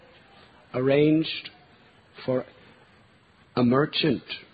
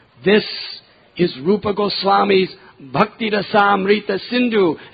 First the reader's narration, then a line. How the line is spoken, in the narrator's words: devotees would roar